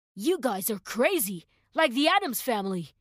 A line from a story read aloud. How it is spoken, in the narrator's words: the man exclaimed